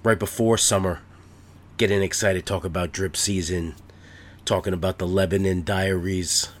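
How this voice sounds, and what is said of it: Nasal, congested voice. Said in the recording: “you might be able to hear it in my nasal passages. I've had a head cold for the last couple days ... Little congestion still”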